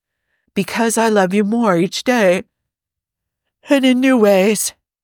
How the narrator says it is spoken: Hob says, around a yawn, the excitement and exertions of the last few hours finally catching up with him

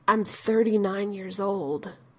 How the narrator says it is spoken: he says in a low voice

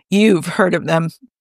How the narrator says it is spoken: Tony said in a stunned voice

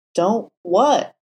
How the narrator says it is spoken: Matt asked, his voice breaking on the last word

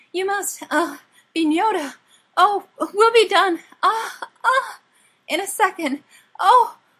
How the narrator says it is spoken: said, in between short, shallow gasps

